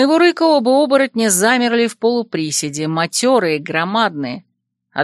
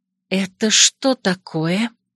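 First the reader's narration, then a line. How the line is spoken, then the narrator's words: Gentle quiet question. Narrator (Russian): тихо спросила я, ласково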